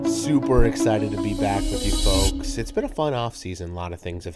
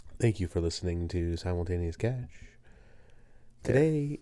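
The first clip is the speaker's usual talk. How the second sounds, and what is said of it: Calm NPR radio host voice. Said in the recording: “that NPR vibe ... your NPR voice ... there it is”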